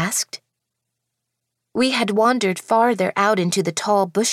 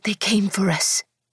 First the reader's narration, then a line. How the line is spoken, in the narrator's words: Lady Eastoff breathed in horror